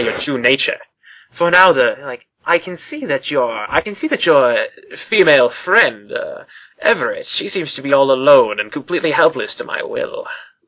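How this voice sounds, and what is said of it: Strained menacing cultist character voice. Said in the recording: “doing that cultist voice earlier just hurt my throat so bad”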